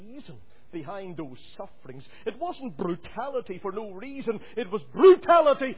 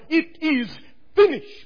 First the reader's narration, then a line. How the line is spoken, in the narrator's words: our Lord cried out at the cross on that ninth hour